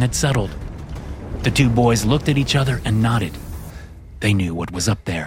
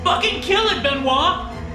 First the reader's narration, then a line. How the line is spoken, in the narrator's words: Max shouted